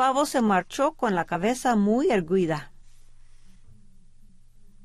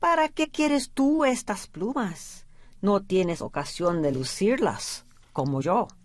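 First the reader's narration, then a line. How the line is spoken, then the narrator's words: Plain. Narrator (Spanish): le dijo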